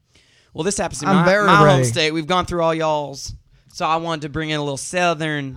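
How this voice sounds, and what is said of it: Southern accent. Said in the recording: “Oh, I love your southern accent. ... Southern Midwestern thing. ... I just love a southern accent.”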